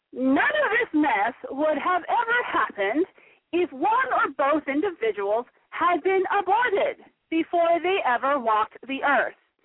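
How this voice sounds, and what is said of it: Margaret Sanger impression. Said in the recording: “do a Margaret Sanger voice”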